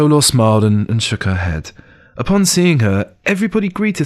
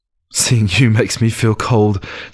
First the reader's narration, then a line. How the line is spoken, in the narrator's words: Zhou Luo chuckled